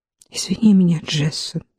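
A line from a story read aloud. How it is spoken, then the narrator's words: Muttered. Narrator (Russian): пробормотала Касси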